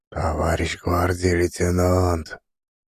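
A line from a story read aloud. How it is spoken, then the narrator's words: Whisper. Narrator (Russian): Дядя Прохор шепотом сказал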